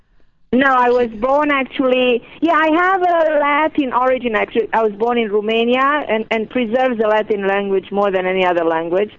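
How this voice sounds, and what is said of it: Exotic-sounding foreign accent. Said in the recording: “Accent's so exotic and sexy sounding ... I tried to change my accent and it didn't work”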